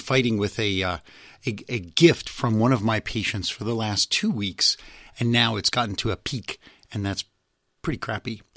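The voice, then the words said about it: Slightly abnormal, unwell-sounding voice. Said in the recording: “you might notice my voice is a little bit abnormal, abnormal.”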